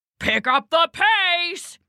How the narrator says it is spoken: he bellowed

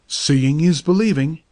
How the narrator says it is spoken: exclaimed the doctor

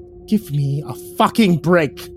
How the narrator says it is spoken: he spat out

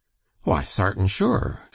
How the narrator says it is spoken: said Yankee cheerfully

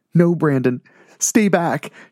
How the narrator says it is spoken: she called out with panic in her voice

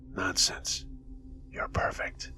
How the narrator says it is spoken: a whisper say

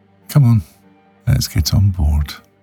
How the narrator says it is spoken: said cheerfully

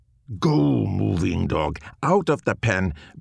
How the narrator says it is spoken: Barley growled

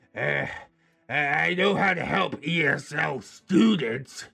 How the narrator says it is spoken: Labbeard snapped as if I had just insulted him

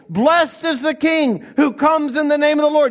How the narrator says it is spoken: The whole multitude of disciples begins joyfully shouting

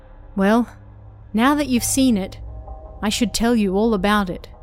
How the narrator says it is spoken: she said

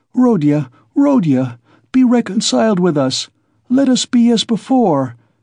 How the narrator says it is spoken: cried his poor mother

